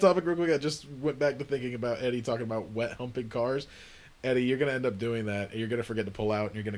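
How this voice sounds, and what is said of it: Usual voice. Nothing is said of it.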